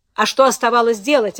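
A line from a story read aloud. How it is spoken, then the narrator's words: Snapping. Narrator (Russian): огрызнулся Альтвангер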